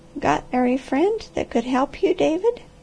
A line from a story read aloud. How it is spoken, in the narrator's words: The old lady with a mist in her eyes and a quaver in her voice, and asked softly